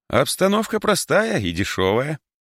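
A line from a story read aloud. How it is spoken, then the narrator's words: Cheerful remark. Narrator (Russian): весело заметил Альбер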